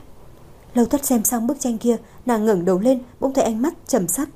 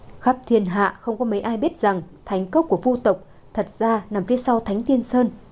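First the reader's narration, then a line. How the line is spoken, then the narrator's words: Laughing. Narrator (Vietnamese): Trầm Hoàng bật cười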